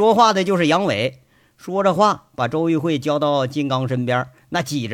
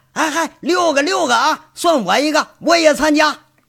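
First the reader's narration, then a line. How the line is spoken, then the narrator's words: Shout from crowd. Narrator (Chinese): 人群里头有人喊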